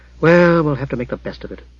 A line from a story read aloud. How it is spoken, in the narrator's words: Jara sighed